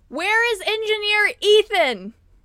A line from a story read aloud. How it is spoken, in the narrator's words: as loudly as she can